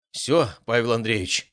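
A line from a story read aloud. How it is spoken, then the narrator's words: Sighing man. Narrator (Russian): вздохнул он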